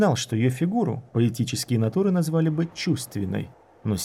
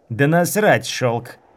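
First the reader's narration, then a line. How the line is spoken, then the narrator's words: Woman growling. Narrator (Russian): Зарычала женщина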